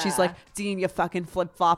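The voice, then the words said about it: Put-on New Jersey accent. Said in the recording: “you just put on your mom's or grandma's accent ... I did a little bit, yeah ... She's like Jersey ... Long Island ... It's that tri-state area ... Twang”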